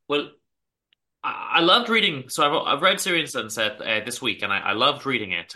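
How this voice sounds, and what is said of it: Northern Irish accent. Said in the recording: “I can hear your accent. I got accustomed to it a little bit from Jonathan Rhys-Meyers on the set, so I recognized it pretty rapidly.”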